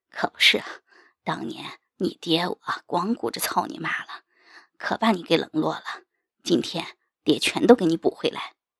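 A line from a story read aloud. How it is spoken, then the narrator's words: Panting, lewd laugh. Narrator (Chinese): 大刚喘着粗气淫笑道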